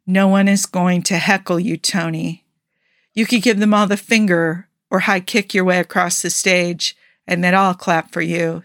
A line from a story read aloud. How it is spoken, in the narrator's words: Steve said